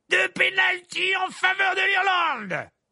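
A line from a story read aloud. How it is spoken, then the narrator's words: Excited announcing shout. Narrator (French): s'écria Verpet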